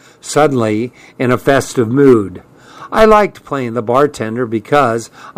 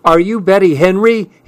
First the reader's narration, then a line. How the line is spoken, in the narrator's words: yelled